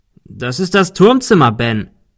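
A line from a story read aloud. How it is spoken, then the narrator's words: Called out. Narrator (German): rief Arthur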